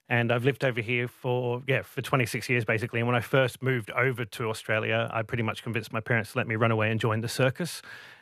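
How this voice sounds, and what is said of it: Geordie speaker with London-tinged accent. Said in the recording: “Geordie from the UK, from Newcastle, and I've somehow picked up a London accent.”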